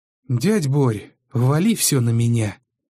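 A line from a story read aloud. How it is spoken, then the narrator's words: Tired, nephew. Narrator (Russian): устало сказал племянник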